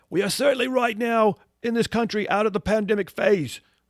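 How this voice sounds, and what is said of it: Imitates another person's voice. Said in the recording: “if I can imitate him ... my poor imitation.”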